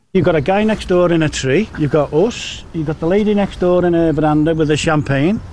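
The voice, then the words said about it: Strong Liverpool accent, hard to understand. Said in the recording (Dutch): “Zo te horen zaten we in de buurt van Liverpool. ... Onmiskenbaar eh, het accent eh, van Ginder. Um, ehm, nauwelijks te verstaan”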